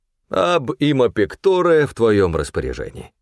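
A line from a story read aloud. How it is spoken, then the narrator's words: Laughing. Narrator (Russian): Он рассмеялся и сказал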